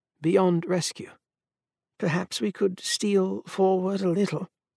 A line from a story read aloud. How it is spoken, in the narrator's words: Marcel murmured